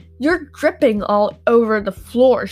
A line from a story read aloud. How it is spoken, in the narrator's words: she barked